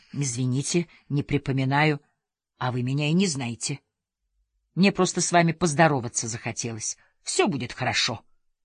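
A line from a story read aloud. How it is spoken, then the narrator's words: Elderly man mumbling. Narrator (Russian): Пожилой человек пробормотал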